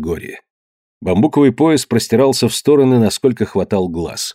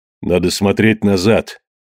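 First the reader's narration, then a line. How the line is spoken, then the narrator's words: Dejected voice. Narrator (Russian): упавшим голосом сказал Кидога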